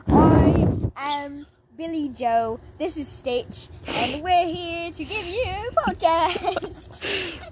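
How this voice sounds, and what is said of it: Put-on British accent. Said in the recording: “speak in a British accent for the entire episode”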